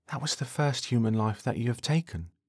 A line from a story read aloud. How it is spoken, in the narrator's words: Troy whispers to Thomas